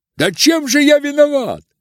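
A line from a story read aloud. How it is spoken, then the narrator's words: Shout. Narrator (Russian): кричал Коля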